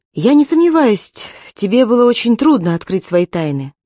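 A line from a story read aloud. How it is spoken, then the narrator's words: Resolute sigh, then speaking. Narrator (Russian): Она решительно вздохнула и сказала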